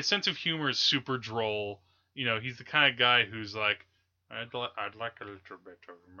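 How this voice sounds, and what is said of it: Usual voice. Nothing is said of it.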